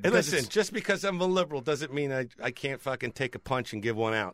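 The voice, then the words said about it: Speaks with a noticeable accent. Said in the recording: “Hearing liberal talking points with your accent.”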